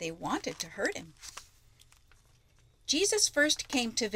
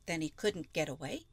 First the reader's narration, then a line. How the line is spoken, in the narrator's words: she said